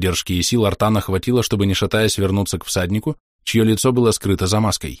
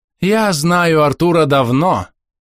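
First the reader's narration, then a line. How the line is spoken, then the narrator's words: Deliberately loud speech. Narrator (Russian): нарочито громко произнесла Омега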